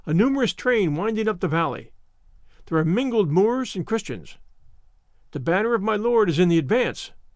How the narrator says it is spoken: cried he

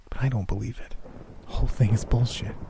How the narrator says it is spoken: she whispered

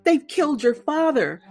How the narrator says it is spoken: in a broken, quavering voice held together only by the thread of her sobs

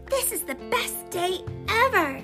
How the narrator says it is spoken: Everest exclaimed

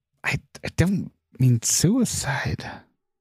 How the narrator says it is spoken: Bob murmured under his breath

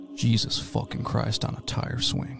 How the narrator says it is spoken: he says under his breath

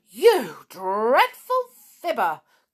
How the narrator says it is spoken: cried Sneery

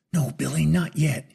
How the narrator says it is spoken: he exclaimed under his breath, his job not yet done

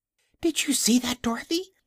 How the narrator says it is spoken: she gasped

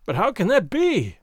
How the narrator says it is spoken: he cried, amazed at my calm

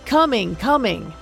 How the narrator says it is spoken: the fisherman bellowed

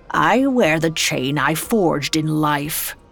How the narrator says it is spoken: he said grimly

